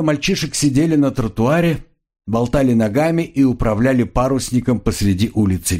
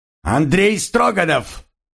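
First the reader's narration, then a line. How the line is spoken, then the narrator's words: Grandmother barking. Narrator (Russian): рявкнула бабушка Тимур Алка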